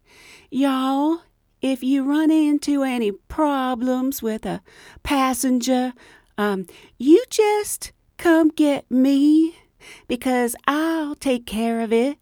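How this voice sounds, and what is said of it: Slow Southern US woman's voice. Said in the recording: “she talks real slow and real Southern ... I'm not very good at accents, but I'm going to try to give you try to do an impression. It'll probably be weak.”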